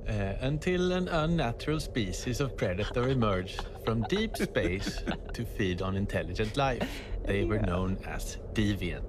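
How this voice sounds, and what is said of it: Swedish accent. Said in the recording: “read this in an awesome Swedish accent”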